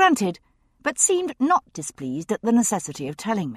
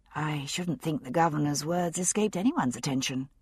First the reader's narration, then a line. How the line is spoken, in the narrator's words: I murmured